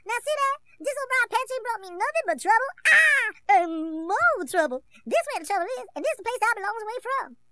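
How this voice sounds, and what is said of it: Cartoon rabbit character voice. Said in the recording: “his Brer Rabbit impression”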